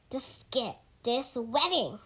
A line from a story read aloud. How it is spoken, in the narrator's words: snarled